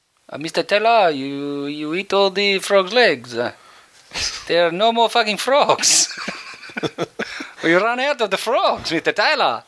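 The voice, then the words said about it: Put-on mixed Italian-French accent. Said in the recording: “Sounds a bit Italian. ... that's the Italian bloke. He's lived in France a long time, so he's got a bit of a mixed accent. ... It sounds like the Italian bloke who's lived in France for a long time, moved to Australia, started driving a taxi.”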